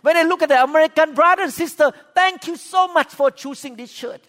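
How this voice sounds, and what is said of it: Thai accent in English. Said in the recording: “You have a Thai pastor, speak with Thai accent”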